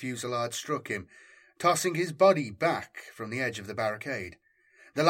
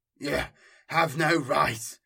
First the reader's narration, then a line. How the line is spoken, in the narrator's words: Mateus snarled at Valak